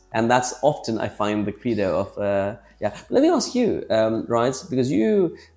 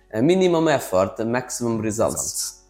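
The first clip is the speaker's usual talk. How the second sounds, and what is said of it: Gino D'Acampo accent impression. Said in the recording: “Gino da Campo said, ... I'm going to do the accent”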